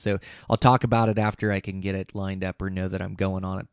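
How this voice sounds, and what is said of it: Hoarse, tired voice. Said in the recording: “You can tell I'm tired. I've got a hoarse voice. I'm worn out”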